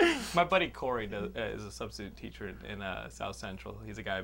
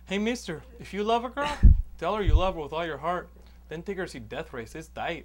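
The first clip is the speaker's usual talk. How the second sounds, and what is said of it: Imitated voice of Hispanic schoolkid. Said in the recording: “he teaches a lot of Hispanic kids ... he gets into this impersonation.”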